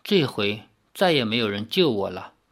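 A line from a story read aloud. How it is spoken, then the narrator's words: Soft, dejected voice. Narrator (Chinese): 他的声音中有点黯然，轻轻地说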